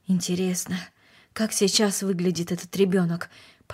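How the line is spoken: Mumbling. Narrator (Russian): пробормотал он

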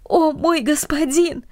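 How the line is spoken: Exclaiming. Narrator (Russian): Ричард воскликнул

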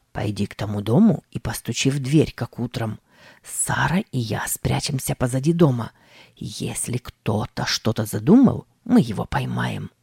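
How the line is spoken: Whispered command. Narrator (Russian): Тим шепотом скомандовал

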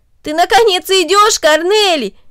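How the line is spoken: Exclamation. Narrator (Russian): воскликнул Дино

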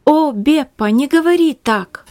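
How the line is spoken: Tearful exclamation. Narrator (Russian): воскликнула Магдалина, заливаясь слезами

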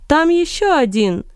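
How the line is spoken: Shout. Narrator (Russian): крикнул один из выживших

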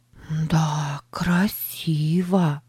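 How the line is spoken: Whispered. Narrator (Russian): прошептала она

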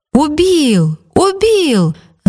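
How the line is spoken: Crowd shouting. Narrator (Russian): закричали кругом

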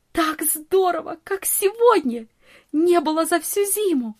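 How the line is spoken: Delighted exclamation. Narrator (Russian): восхищенно воскликнула Нони

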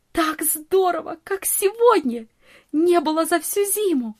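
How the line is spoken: Delighted exclamation. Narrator (Russian): восхищенно воскликнула Нони

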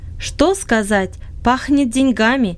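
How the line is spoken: Plain. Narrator (Russian): ответил Макракин

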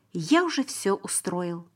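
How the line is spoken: Plain. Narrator (Russian): ответил Иосиф

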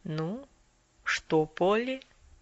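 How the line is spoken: Quiet. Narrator (Russian): доктор тихонько произнес

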